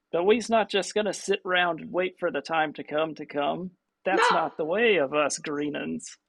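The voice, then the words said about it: Rough old goblin character voice. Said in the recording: “That's a terrible goblin voice. I'm going to have to work on my old goblin voice.”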